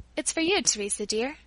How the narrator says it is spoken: saying gently

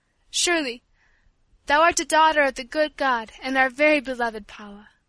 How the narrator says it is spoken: Teresa exclaimed, her voice shaking with emotion

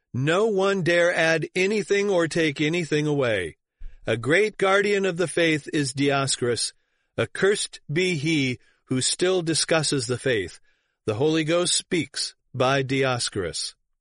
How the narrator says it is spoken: there were loud shouts from the assembly

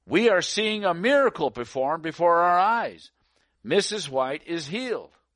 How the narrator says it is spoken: Montrose, a businessman from the town, exclaimed

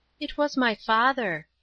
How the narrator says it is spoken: said Paula quietly

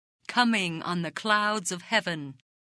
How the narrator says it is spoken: They jeeringly repeated his words

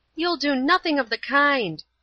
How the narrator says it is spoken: she cried

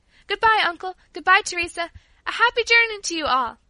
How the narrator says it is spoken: cried Paula

